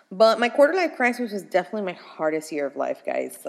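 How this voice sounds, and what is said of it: Breathless, short of breath. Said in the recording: “if I am out of breath, I am so sorry. These two keep sitting up on my lungs ... ignore my lack of breath here”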